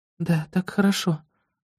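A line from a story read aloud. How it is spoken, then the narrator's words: Quiet, barely moving lips. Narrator (Russian): тихо отвечает она, едва шевеля губами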